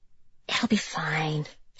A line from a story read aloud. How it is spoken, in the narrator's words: she whispered to Brian